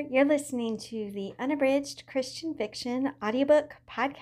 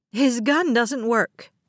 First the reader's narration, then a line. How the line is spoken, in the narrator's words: a passenger shouted